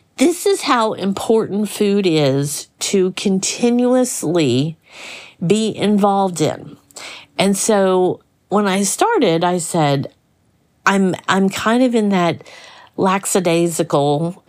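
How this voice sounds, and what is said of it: Slight Southern American twang. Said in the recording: “I have my little southern twang.”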